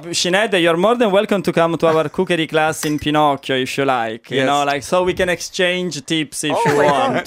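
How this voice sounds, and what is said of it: Italian accent. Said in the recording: “It's the accent... The Italian accent might do it.”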